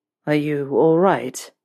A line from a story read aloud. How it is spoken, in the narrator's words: Draco asked, his voice rough